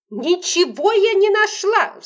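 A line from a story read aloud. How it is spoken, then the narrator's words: Woman's shriek. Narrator (Russian): взвизгнула тетка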